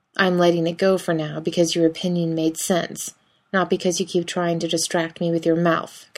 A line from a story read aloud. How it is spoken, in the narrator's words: Cass says firmly